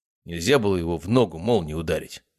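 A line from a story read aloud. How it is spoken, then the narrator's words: Plain. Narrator (Russian): спросил другой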